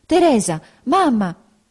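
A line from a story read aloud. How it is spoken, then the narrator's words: Agitated voice exclaiming. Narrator (Italian): una voce alterata esclamò dietro la carrozza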